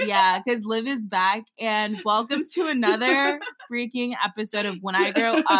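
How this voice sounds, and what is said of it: Usual voice. Nothing is said of it.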